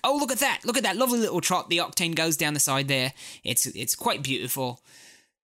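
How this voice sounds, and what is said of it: Put-on posh English accent. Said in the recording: “I might actually bring out the English accent as I'm enunciating”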